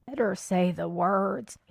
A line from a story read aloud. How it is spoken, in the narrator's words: advised huskily